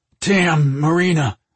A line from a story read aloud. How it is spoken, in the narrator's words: Mike cried out, feeling his cock slip deeper inside her